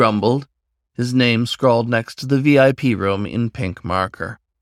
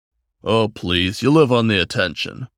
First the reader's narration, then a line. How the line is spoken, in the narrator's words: a thickly built white tiger chirred